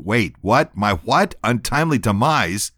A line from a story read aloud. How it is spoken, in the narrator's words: he snaps, angrily